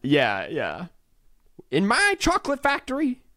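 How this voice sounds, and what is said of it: Over-the-top put-on accent. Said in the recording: “he'd probably do like an over-the-top accent.”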